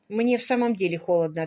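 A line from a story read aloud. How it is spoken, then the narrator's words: Plain. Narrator (Russian): ответила Салли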